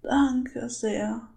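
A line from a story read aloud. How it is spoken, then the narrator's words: Frightened, sobbing old woman. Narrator (German): brachte die alte Dame noch immer erschrocken und schluchzend hervor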